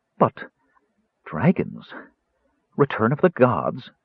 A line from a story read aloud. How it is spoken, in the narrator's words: murmured Elsa